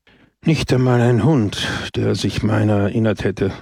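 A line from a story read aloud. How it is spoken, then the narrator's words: Sighing. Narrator (German): seufzte Don Camillo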